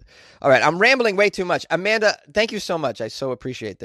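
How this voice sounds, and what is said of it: Usual voice. Nothing is said of it.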